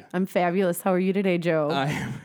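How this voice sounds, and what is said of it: Polished radio announcer voice. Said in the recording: “with her radio voice”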